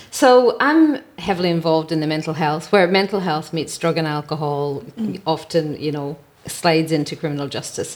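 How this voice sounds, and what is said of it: Irish accent. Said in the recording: “as you can tell from the accent, as I mentioned, I emigrated from Ireland”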